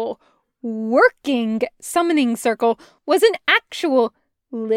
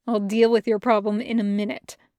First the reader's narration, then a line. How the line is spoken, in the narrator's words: the demon muttered